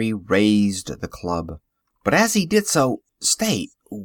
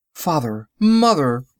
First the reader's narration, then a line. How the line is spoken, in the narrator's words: he cried